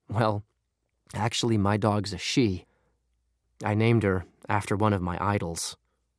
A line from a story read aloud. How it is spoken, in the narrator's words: sigh and say